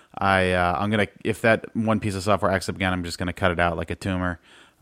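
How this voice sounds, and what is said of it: Strained, failing voice. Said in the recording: “my voice is dying”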